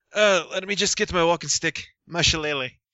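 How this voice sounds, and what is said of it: Put-on Irish accent, airy, rolled R's. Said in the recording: “he's gone full Irish ... I keep getting airier and airier in my voice ... rolling my R's ... Your accent is drifting”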